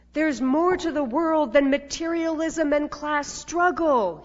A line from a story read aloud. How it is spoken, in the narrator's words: he shouted